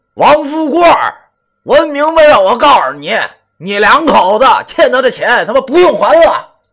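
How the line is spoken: Loud shouting. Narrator (Chinese): 大声的喊道

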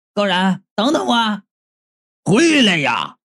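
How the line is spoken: Frantic, exasperated. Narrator (Chinese): 道士是终于跳脚了

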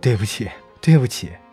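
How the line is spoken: Crying. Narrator (Chinese): 我哭着说

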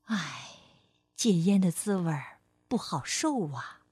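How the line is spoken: Sighing, explaining. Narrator (Chinese): 火龙妈妈叹了口气，解释说

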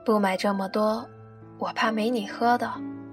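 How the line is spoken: Flat, indifferent. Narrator (Chinese): 你淡淡的说

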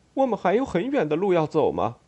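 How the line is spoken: Cheerful smiling question. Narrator (Chinese): 宾达比克快活的微笑

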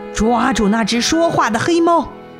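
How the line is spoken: Sudden angry roar. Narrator (Chinese): 黑暗中突然发出一声怒吼

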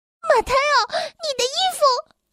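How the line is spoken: Frightened shouting. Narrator (Chinese): 斯黛拉吓得直喊

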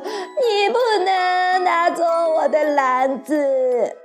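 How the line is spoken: Anxious crying. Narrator (Chinese): 贝利奥急得跳出来大哭

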